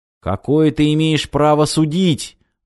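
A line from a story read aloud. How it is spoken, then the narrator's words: Young man shouting. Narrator (Russian): выкрикнул юноша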